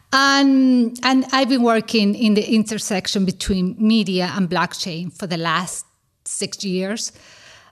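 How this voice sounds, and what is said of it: Spanish accent. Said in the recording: “As you can see from my accent, I do speak Spanish.”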